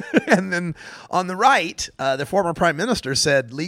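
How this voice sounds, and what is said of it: Usual voice. Nothing is said of it.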